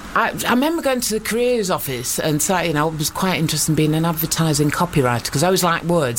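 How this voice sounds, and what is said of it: Lancashire English accent. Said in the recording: “I ended up with this accent because I had to go and live in Preston in Lancashire, and I got my Canadian accent literally beaten out of me”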